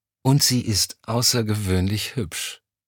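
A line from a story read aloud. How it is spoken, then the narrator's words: Sigh. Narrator (German): Elm seufzte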